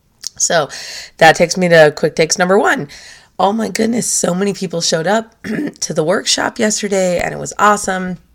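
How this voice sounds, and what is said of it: Scratchy, strained voice. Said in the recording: “I'm kind of losing my voice ... My voice was too loud, so if I sound a little bit scratchy today”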